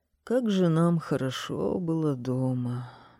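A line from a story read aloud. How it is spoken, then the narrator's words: Elderly man sighing. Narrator (Russian): вздохнул пожилой господин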